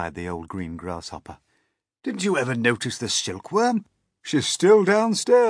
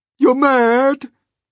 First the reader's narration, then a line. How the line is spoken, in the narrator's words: cried the earthworm